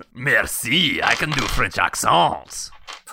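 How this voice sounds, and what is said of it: Put-on French accent. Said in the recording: “Can you do a French accent? ... That's actually like the best we've heard yet.”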